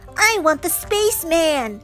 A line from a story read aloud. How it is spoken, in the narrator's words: yelled a boy